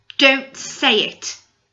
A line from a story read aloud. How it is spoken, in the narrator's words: said angrily